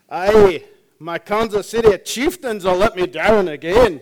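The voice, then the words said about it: Imitates Scotty's Scottish voice. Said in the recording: “how about Mr. Scott?”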